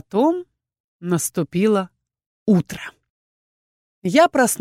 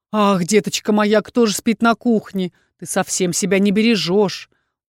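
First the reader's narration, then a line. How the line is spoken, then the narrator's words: Tender falsetto. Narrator (Russian): ласковый фальцет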